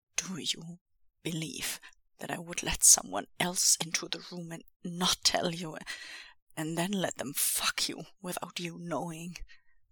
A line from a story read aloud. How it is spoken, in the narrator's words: He says again, with a little more uncaged tremble-rumble in his voice